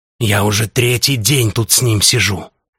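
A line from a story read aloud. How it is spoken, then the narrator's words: Conspiratorial whisper. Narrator (Russian): Перестав истерить, бразилец перешел на шепот заговорщика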